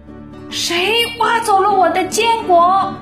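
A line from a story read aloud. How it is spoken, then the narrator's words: Squirrels shouting. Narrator (Chinese): 一群小松鼠，他们不停地大喊着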